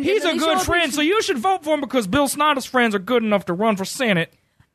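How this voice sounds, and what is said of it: Put-on southern accent. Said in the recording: “your southern accent”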